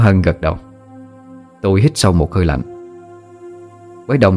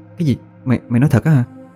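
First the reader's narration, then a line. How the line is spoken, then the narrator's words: Stammering in surprise. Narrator (Vietnamese): Tôi kinh ngạc, miệng lắp bắp hỏi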